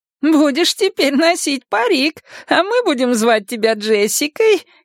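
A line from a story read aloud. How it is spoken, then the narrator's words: Giggling grandmother explaining. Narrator (Russian): хихикая объяснила мне бабушка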